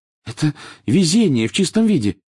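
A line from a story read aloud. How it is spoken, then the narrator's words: Excited. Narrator (Russian): взволнованно произнесла Гермиона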